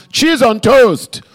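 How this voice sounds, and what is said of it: Shouted put-on Nigerian accent. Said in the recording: “He's Nigerian, by the way. I don't know why I'm just sort of shouting out an accent.”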